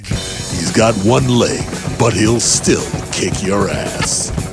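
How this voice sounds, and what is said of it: Dramatic movie trailer voice. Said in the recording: “you gotta say it in the trailer voice”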